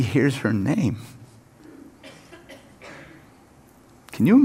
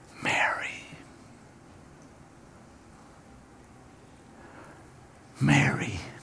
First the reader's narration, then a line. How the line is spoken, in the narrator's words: Jesus whispers